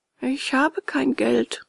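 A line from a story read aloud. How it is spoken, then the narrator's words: Sad confession. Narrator (German): gestand Bengele und ward traurig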